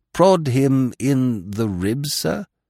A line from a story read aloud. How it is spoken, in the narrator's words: he quavered